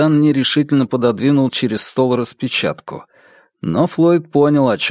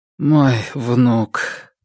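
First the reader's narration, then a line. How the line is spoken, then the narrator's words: Dejected voice. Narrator (Russian): произнес он упавшим голосом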